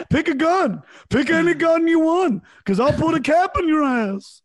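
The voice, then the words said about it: Imitates another person's voice. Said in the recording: “good impersonation.”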